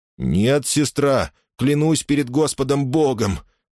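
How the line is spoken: Trembling voice. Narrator (Russian): дрожащим голосом ответил

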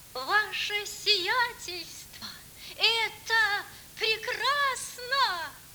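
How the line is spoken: High-pitched shout. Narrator (Russian): кричал он тонким голосом

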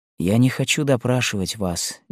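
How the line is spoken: Tender. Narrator (Russian): нежно продолжал

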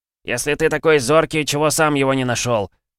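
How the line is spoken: Snapping retort. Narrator (Russian): огрызнулся Бьёрн

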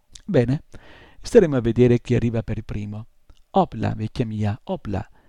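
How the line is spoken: Exclaiming. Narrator (Italian): esclamò

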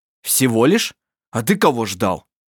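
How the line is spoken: Rough question. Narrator (Russian): спросил он грубо

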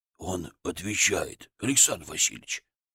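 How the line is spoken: Servant's whisper. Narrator (Russian): шепотом сказал слуга

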